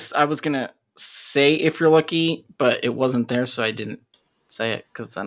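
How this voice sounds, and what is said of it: Usual voice. Nothing is said of it.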